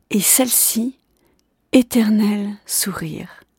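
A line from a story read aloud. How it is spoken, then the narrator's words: Murmuring woman. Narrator (French): murmura-t-elle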